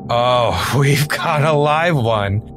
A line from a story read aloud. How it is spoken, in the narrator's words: I slurred